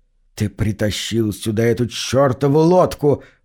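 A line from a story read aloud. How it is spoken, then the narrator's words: Hiss. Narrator (Russian): прошипел мэр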